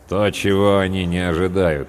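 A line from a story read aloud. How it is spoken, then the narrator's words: Grim. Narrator (Russian): мрачно произнес третий сержант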